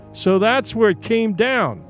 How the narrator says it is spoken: he exclaimed

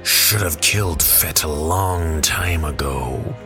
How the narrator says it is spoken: Bossk growled from behind rows of razor-sharp teeth

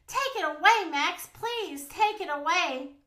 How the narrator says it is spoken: cried Poppy

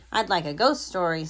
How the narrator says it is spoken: said Mouse

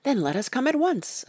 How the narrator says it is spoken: I cried

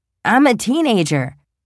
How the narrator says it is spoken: blurts out

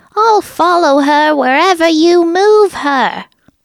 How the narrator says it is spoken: enraged Jeff enough to scream

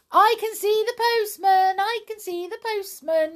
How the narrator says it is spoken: shouted Pipkin

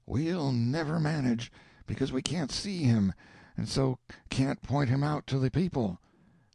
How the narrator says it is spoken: the whispers said

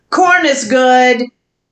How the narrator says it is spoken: And I answered loudly

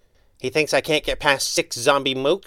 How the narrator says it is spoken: snorted

